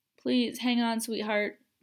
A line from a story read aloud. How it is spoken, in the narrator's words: Kendra pleaded